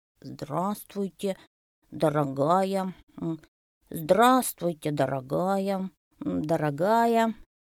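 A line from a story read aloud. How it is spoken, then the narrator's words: Little elephant's mumbling. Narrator (Russian): забормотал слоненок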